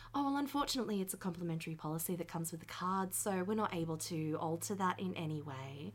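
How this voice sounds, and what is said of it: Polite customer service phone voice. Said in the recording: “customer service voice”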